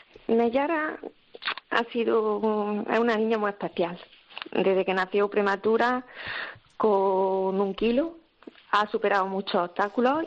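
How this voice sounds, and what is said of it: Andalusian Spanish accent. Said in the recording (Spanish): “ese acento tan precioso ... Somos de Algadinejo, Granada.”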